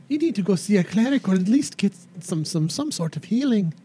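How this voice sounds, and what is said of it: Put-on character accent. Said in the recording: “it's the accent, dearie. It messes with everybody.”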